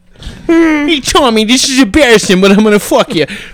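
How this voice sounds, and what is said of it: Comedic put-on character voice. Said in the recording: “It almost sounds like an Adam Sandler's like accent ... that's more like Adam Sandler as the fucking Riddler”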